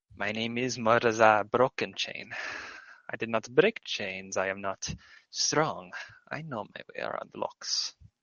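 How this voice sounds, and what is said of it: Character voice with an accent. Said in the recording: “Morzar, I almost said Morzar in like the fucking accent”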